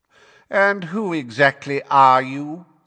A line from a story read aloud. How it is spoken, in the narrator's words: said Fudge in a bored and lofty voice